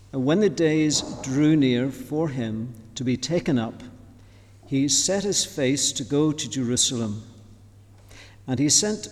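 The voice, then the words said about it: Slightly different non-native accent. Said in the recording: “I need to speak loud and slow, my wife tells me, for my accent's slightly different”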